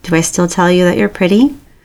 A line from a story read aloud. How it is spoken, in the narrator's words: Jimin laughs wetly